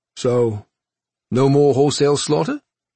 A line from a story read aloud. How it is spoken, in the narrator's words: Cha asked a little too eagerly